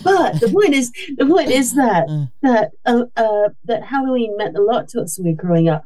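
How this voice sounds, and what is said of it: American accent. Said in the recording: “You can tell by my accent, I'm American.”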